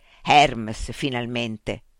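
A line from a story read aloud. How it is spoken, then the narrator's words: Murmured. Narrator (Italian): mormorò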